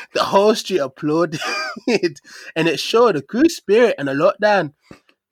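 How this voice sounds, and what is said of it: Put-on Northern English accent. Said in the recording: “Wait, he's Northern, innit? ... Here comes accent”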